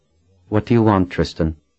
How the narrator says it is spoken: Colin asked in a level tone

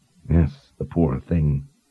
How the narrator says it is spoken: Kaylin muttered under her breath

